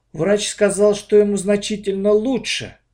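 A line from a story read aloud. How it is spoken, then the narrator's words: Sighing. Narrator (Russian): вздохнул я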